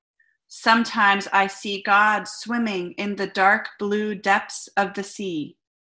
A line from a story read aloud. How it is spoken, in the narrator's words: The voice seemed to come from the mountain, who rumbled